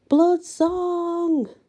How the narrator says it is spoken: howled together

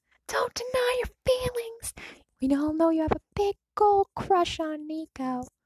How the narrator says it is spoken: The smiling fool waved at him from 30 feet away and yelled

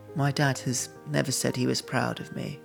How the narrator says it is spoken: Quietly, she said

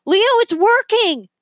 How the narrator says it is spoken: Remy yelled from a corner of the roof

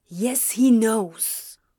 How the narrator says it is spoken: Crowley growled in a whisper

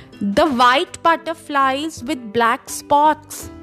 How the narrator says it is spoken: said the caterpillar fiercely

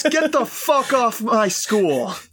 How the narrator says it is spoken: yells

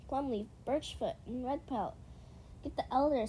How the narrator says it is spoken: Small Blossom said more urgently

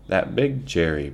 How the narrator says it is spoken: Pa laughed, rang out

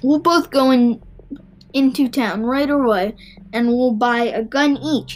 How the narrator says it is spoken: he shouted

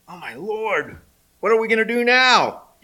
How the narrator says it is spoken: he cried to Elisha

